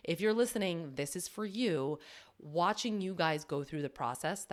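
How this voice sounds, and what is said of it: Teary, emotional voice. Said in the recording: “I'm getting a little teary.”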